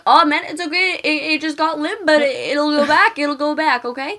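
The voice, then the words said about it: Imitated Canadian-country accent. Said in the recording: “impersonation of him? I don't even know what kind of accent he had. It was, like, Canadian. ... mixed ... country. ... With, like, country.”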